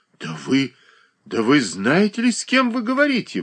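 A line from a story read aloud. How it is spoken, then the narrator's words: Exclaiming. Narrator (Russian): воскликнула Зорина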